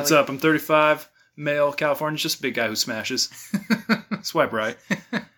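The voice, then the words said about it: Attempted California accent. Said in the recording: “Was that a California accent?”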